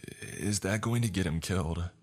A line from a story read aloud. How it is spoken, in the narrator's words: She asked me in a somber tone